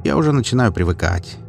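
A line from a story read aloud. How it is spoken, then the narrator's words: Cheerful. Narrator (Russian): весело ответил Галуев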